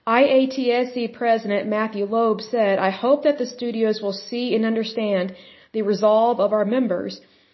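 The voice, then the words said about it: Speaks with a noticeable accent. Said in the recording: “sorry, my accent”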